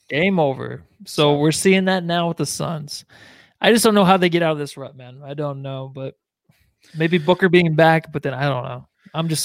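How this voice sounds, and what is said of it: Subdued, low-energy voice. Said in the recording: “my voice isn't as amped as it usually is ... you're kind of subdued”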